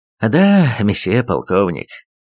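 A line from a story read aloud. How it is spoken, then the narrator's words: Sighing. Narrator (Russian): вздохнул Крамер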